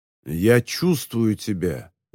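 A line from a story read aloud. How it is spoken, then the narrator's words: Menacing. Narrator (Russian): грозно сказал Колтон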